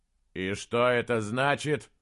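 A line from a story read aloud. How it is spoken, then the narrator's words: Irritated, puzzled question. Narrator (Russian): раздраженно и одновременно в недоумении спросил Слудик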